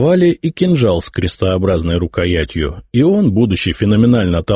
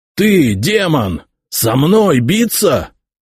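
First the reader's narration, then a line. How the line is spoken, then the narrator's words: Growling warrior. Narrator (Russian): прорычал какой-то воин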